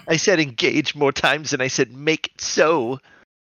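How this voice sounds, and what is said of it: Good character impression. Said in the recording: “Oh, that was a really good impression of that, dude.”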